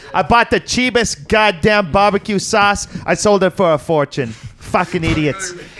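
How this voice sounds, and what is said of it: Put-on New York accent. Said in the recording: “He's actually got a New York accent.”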